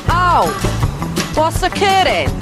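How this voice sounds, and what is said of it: Welsh accent. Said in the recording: “that's a Welsh accent. Do you want to hear it again?”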